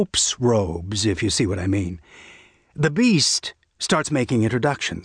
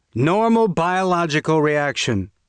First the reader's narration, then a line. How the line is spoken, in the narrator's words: Tonner shouted at them from the kitchen